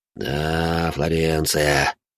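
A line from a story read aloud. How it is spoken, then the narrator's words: Sighing. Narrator (Russian): вздохнул француз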